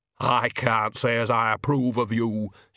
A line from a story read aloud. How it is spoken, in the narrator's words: said stiffly